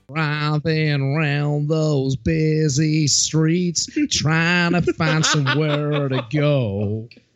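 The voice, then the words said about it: Singing, imitates another person's voice. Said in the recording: “my best Jeff Jarrett singing impression”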